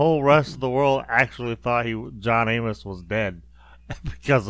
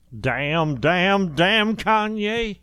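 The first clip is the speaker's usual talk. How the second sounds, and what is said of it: Impression of Florida from Good Times. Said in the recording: “my Florida impression”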